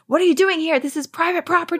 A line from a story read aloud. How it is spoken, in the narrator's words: yelling